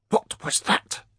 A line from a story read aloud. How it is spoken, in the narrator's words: Edgan hissed